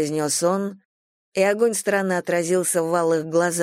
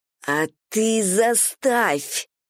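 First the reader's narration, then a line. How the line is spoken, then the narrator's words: Hissed. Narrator (Russian): прошипела я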